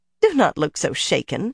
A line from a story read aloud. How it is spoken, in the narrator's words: Bear chuckled